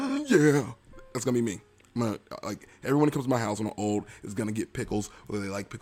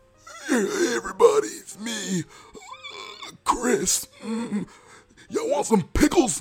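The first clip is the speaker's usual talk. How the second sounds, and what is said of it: Old man voice. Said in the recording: “That's not really old man voice. ... Let me try it again.”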